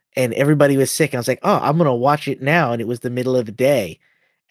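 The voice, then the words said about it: Sick-sounding voice. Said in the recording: “We've all been sick, in case you can't tell from my voice.”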